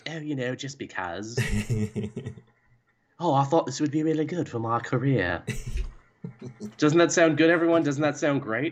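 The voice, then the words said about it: Put-on British accent. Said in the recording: “I'll just speak with a British accent sometimes. ... This is a pretty good accent.”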